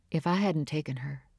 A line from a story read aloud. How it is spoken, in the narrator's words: added softly